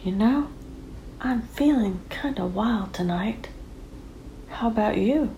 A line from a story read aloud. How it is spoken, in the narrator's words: she leaned in and whispered in his ear